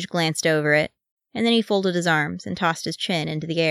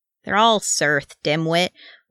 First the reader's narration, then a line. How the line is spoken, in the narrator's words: Wee Thorin growled